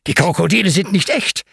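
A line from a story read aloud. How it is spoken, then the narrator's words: Excited explanation. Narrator (German): erklärt Ben aufgeregt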